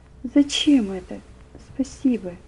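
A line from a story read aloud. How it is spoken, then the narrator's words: Whisper. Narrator (Russian): Ему хотелось возражать, сопротивляться, но он только шептал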